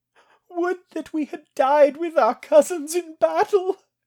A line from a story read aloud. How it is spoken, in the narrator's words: Girk whimpered